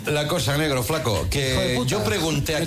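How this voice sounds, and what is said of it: Put-on Argentine Spanish accent. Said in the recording (Spanish): “Te sale el acento... Sí, me sale el acento, che”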